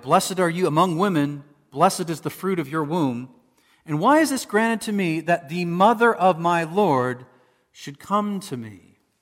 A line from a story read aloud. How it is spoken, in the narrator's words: She exclaimed with a loud cry